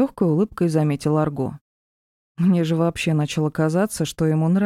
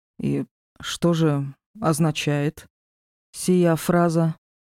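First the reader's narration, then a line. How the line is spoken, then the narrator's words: Slow and clipped. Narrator (Russian): Медленно и отрывисто выговорил Диар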